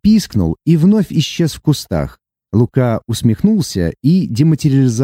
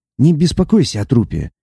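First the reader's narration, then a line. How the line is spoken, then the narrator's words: Quiet. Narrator (Russian): тихо произнес он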